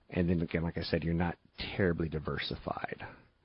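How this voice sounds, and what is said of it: Creaky vocal fry. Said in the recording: “Uh-oh, I just went into vocal fry.”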